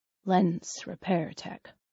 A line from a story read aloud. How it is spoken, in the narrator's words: Everett mutters